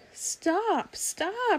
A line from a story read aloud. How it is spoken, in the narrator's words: she cried